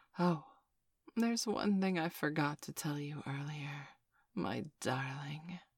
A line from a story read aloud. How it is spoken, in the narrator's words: she said quietly into my ear